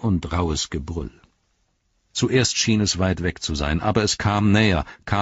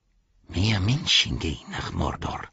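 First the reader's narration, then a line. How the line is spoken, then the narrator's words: Said quietly. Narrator (German): sagte er leise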